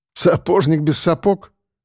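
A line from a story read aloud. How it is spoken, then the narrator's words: Chuckling. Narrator (Russian): хохотнул Сальников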